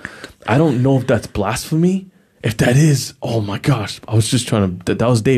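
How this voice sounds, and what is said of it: Usual voice. Nothing is said of it.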